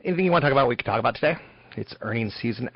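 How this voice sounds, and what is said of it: Weak, strained voice. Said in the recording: “My voice is a little bit weak, but it's better than it was yesterday.”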